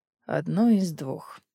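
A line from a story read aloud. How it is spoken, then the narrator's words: Hoarse. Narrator (Russian): хрипло ответил Дарра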